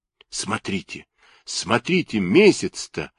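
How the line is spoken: Whispering. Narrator (Russian): зашептал

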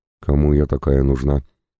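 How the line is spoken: Sad, smiling tone. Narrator (Russian): грустно улыбнулась она

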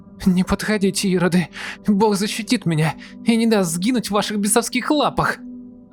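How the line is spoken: Terrified screaming girl. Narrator (Russian): Завопила девушка в виде надвигающихся существ

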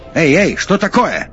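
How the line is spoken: Yell. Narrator (Russian): заорал Максим

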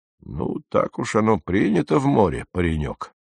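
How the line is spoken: Muttered. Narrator (Russian): пробормотал Кок

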